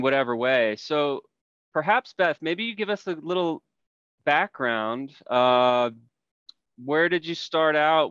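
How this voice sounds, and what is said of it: Smooth radio announcer voice. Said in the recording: “He's got that, you know, radio announcer voice. It's so lovely.”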